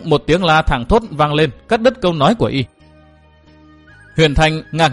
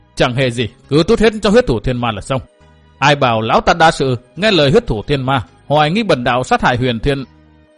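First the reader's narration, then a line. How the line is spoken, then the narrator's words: Resentful, sullen. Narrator (Vietnamese): hậm hực nói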